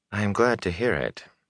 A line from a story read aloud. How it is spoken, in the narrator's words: Moraine said dryly